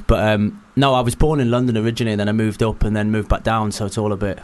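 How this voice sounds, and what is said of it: North West English accent. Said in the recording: “I would have sworn from your voice that you were from North West. I'd have thought North West”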